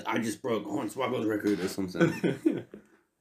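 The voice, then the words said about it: Imitates another person's voice. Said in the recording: “A terrible impression.”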